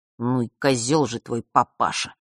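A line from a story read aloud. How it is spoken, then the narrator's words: Smiling, through teeth. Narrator (Russian): процедил он, не переставая улыбаться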